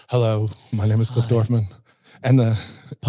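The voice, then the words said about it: Exaggerated professional podcast-host voice. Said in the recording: “get into your professional voice ... Podcast voice.”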